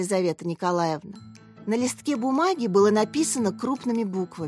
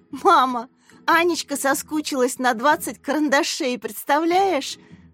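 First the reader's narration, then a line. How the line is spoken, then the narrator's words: Laughing. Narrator (Russian): Засмеялась Катя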